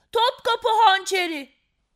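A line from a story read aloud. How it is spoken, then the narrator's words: Child shouting. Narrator (Turkish): diye bağırdı çocuklardan biri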